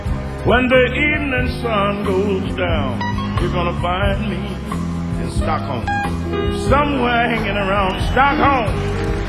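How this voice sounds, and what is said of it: Mississippi accent. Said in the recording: “my Mississippi accent”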